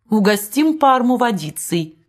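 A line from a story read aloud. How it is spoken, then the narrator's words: Laughing. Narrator (Russian): смеясь сказала герцогиня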